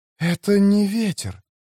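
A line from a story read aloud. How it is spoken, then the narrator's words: Whisper. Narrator (Russian): прошептала Скеллара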